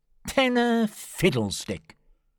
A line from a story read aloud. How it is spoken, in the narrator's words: said, sneering